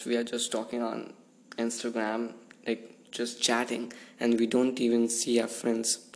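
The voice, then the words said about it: Hoarse, failing voice. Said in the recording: “what the heck, my voice. I guess I'm losing my voice.”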